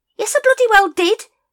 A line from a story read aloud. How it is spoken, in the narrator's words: said Nobby hotly